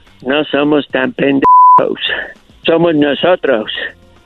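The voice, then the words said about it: Spanish with a put-on American accent. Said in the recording (Spanish): “qué buena imitación de un americano”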